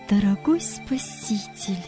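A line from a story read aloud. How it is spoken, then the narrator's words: Quiet. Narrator (Russian): тихо начала Нина Сергеевна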